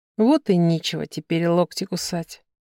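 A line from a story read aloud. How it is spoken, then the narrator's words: Quiet. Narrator (Russian): произнесла тихо вслух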